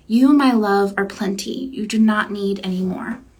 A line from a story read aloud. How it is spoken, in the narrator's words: she whispered in my ear